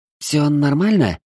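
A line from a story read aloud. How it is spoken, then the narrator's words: Worried question. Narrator (Russian): взволнованно спросила ящерка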